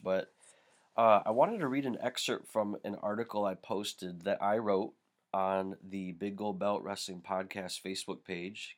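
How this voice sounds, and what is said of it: Sick, congested-sounding voice. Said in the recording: “apologize for my voice ... I'm fighting either allergies or a cold”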